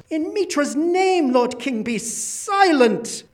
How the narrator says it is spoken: a high priest of Mitra who cried out, and its countenance was ashen

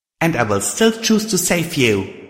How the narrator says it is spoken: I said angrily

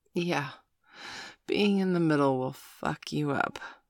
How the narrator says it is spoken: Miss Angeli cooed

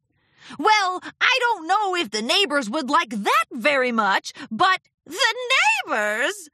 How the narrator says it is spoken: Discord laughed

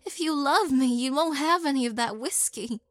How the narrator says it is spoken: Syl pleaded

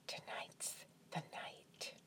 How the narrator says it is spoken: Then I whispered in his ear

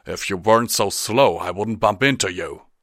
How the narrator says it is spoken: the stallion growled

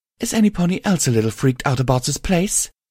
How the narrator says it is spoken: Lust said nervously

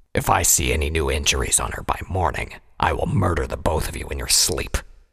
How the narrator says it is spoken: he growled

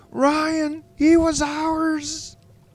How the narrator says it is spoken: shrieked

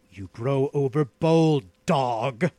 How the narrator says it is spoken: growled the outlaw

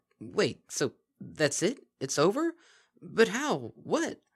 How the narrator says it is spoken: Lyra spluttered

